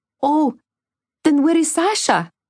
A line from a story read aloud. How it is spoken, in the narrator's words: cried Vasya, in sudden fear